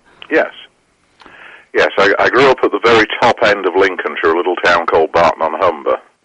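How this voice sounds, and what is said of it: English accent. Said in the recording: “judging from your accent, that this was taking place in England.”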